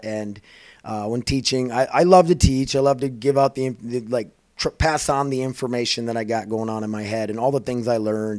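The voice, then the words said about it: Hoarse, raspy voice. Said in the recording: “my voice is kind of rash today, because I talked a lot”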